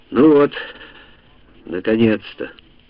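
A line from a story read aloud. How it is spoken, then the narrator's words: Relieved sigh. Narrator (Russian): с облегчением вздохнул Йоковатари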